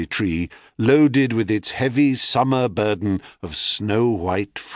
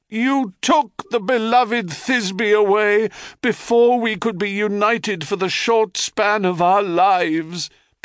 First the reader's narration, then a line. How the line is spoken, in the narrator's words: Pyramus cries to the heavens